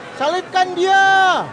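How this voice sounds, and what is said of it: Shouting loudly. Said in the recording (Indonesian): “berteriak-teriak lebih keras lagi”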